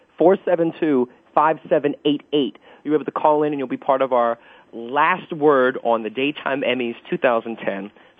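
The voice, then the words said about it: Whispering, voice nearly gone. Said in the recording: “I don't know why I'm whispering. I guess because I have no voice.”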